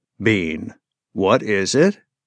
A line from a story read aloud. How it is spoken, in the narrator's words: calmly inquired